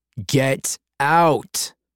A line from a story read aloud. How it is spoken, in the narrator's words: Chance bellowed